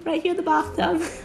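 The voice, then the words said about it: Put-on British accent. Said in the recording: “What do you think of a British accent?”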